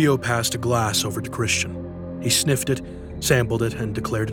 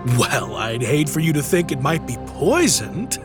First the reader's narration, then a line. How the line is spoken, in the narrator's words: laughed Christian